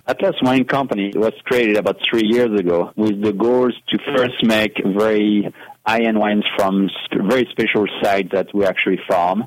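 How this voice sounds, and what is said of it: French accent. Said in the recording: “You do, by the way, have an accent. ... It's very natural ... If you have a French accent”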